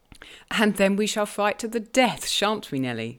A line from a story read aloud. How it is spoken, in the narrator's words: she returned, laughing